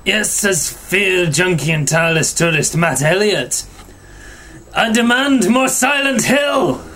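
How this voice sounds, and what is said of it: Put-on Scottish accent. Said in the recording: “you've got to do yours in a Scottish accent”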